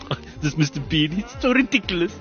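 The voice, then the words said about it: Bad put-on German accent. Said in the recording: “why are you speaking Indian? ... That's the worst German accent ever.”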